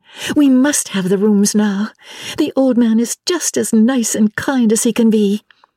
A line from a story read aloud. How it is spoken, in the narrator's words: cried Lucy to her cousin